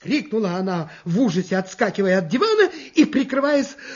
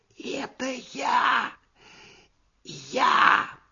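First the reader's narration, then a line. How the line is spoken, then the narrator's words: Muffled trembling whisper. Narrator (Russian): послышался из-под дивана дрожащий шепот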